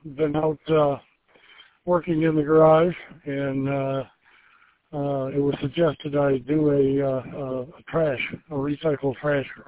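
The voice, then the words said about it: Breathless, winded speech. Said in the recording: “I'm a little out of breath.”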